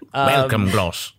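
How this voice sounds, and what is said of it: Exaggerated nasal upper-class RP accent. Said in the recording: “talk like this ... Very, very upper class ... the hoity-toity RP accent, I think it gets a little bit further up your nose ... My entire larynx is in my nasal cavity ... I'm so resonant right now”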